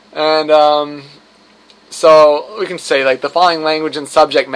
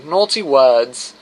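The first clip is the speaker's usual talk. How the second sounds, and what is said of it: Put-on British accent. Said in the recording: “It sounds like it should be said in a British accent.”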